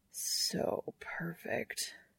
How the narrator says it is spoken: Castiel murmurs

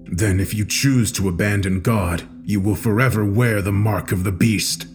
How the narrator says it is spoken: said coldly

